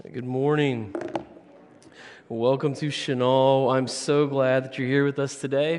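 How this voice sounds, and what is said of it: Hoarse voice. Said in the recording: “I'm a little bit hoarse ... I've been yelling at basketball”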